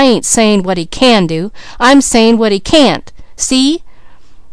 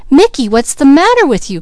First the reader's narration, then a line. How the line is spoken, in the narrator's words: cried Peaches suddenly